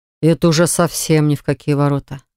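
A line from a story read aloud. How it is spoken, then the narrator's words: Growling. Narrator (Russian): зарычал Левон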